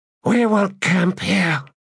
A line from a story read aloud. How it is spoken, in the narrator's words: said in a hoarse voice